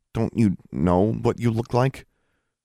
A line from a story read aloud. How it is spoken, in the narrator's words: Alexandra was having trouble not stammering